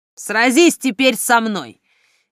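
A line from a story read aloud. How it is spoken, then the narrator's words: Beast's growl. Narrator (Russian): Рох обернулся в зверя и зарычал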